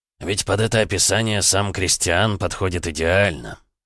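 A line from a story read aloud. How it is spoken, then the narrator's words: Snort. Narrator (Russian): хмыкнул император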